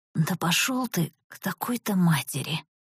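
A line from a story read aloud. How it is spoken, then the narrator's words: Exhausted hoarse rasp. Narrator (Russian): Прохрипела я из последних сил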